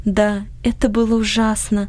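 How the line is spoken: Sighing. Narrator (Russian): вздохнула Анни

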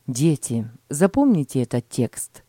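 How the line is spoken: Plain. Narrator (Russian): сказал отец

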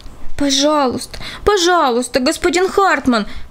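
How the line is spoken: Group pleading. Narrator (Russian): взмолились они

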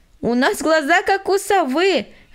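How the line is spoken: Laughing from above. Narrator (Russian): засмеялась Аня с верхушки дерева

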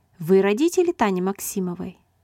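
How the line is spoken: Plain. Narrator (Russian): спросил он

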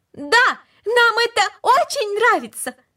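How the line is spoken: Loud. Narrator (Russian): Макс громко сказал

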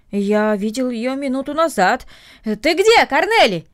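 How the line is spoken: Shouting into distance. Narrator (Russian): крикнул он в сторону дома

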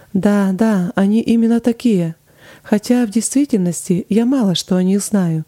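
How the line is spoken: Plain. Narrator (Russian): сказала Флоренс

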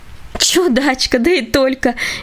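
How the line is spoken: Cheerful laugh. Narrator (Russian): весело рассмеялась

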